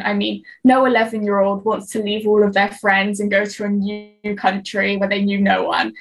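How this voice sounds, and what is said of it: British accent. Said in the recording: “I never lost my British accent”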